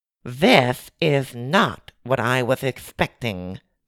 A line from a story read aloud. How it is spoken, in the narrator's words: said the man with a high-pitched lisp